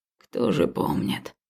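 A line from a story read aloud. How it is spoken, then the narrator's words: Muttering. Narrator (Russian): пробормотал он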